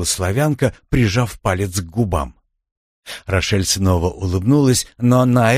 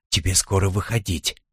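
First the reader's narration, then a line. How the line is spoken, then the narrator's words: Whisper. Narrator (Russian): шепнул Рошель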